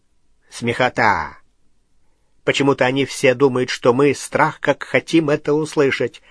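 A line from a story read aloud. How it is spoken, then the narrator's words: Scoffing snort in darkness. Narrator (Russian): хмыкнул в темноте Струпьер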